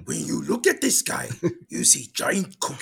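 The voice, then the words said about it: Cookie Monster impression. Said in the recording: “I could do Cookie Monster.”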